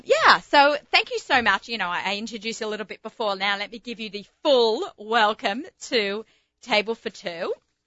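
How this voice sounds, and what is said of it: Australian accent. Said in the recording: “I can't even blame it on my American accent. It's my Australian accent.”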